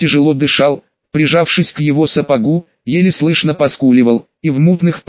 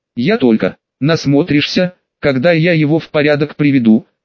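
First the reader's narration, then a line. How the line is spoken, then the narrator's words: Snorting. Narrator (Russian): хмыкнул Люк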